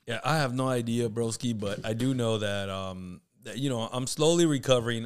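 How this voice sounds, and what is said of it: Strained, hoarse voice. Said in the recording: “my throat has been jacked up for a bit. I lost my voice. Everything itches, dude, in my throat”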